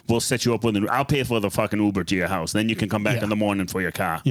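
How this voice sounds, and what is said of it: Boston accent. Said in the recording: “There goes the Boston accent again”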